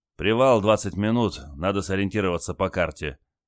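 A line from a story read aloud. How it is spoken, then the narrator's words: Weary announcement. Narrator (Russian): устало объявил моряк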